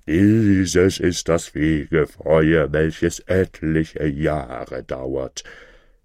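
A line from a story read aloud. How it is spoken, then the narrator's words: Terrible, frightening voice. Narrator (German): rief mit schrecklicher Stimme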